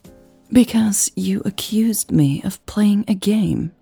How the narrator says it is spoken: she said quietly

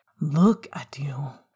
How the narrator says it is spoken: Remus whispered, the tenderness of the words

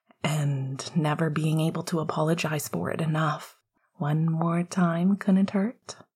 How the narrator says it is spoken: he replied softly

